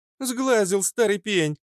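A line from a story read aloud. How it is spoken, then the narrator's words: Laughing. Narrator (Russian): Засмеялась Фитилек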